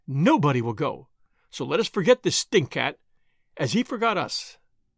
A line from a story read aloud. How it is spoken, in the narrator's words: exclaimed Brow Prinsloo triumphantly